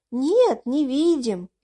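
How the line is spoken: Cheerful group shouting. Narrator (Russian): весело все кричали

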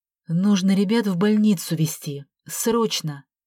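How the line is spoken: Cold, reasoned voice. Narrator (Russian): встряла Вера холодным, рассудительным голосом

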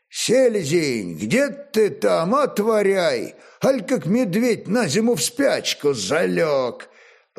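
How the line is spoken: Hoarse, loud soldierly shout. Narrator (Russian): Борич хриплым, но громким воинским голосом закричал

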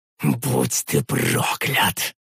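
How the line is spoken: Helpless furious hiss. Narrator (Russian): прошипел я, сжимая в беспомощности кулаки

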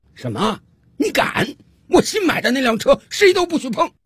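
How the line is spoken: Loud shout. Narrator (Chinese): 这丈夫突然有反应了，大声冲着太太喊道

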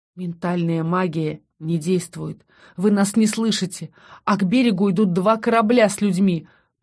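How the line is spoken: Breathless exhale. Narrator (Russian): пробиваясь сквозь одышку, выдохнул я

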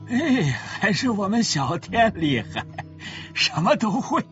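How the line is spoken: Laughing broadly. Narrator (Chinese): 丁老头嘴都笑豁了，直说

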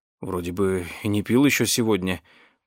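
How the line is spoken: Confused mutter. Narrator (Russian): пробормотал он, по-прежнему пребывая в совершенном замешательстве

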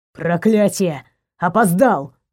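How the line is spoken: Growl. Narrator (Russian): зарычал

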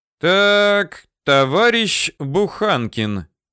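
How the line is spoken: Reading aloud loudly. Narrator (Russian): читал громко

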